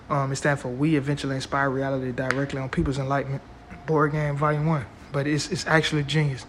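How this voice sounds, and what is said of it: Hoarse, strained voice. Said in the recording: “It sounds like I'm losing my voice right now”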